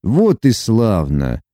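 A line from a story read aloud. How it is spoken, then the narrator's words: Cold. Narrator (Russian): холодно отозвался Лука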